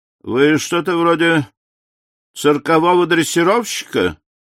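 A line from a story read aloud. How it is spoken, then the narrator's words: Contemptuous mutter. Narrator (Russian): Презрительно, но уже без вызова пробурчал капитан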